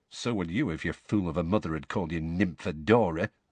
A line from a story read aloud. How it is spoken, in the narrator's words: muttered Tonks